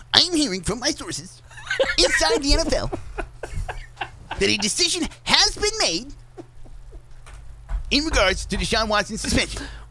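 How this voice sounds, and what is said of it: Imitates another person's voice. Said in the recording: “do your Adam Schefter voice? ... you got to purse your face up like you just sucked on a lemon almost to do Adam Schefter”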